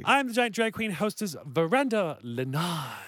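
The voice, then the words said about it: Exaggerated put-on foreign accent. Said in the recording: “this stupid accent ... It's changed, too. Like, each one was a little right, different than the other. ... Pick a country”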